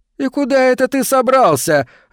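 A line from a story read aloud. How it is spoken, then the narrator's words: Mocking laugh. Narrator (Russian): рассмеялся Эндрю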